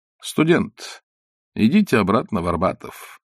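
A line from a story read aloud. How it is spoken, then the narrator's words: Dry. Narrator (Russian): сухо сказал Остап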